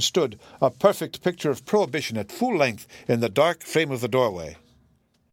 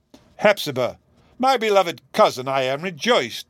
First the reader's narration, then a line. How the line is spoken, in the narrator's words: exclaimed the judge, most emphatically